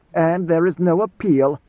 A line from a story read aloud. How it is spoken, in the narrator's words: Idaho sneered